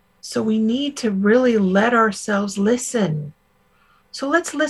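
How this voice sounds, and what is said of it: Usual voice. Nothing is said of it.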